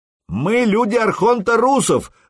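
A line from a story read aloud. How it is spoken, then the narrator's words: Yelled. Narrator (Russian): заорал Сергей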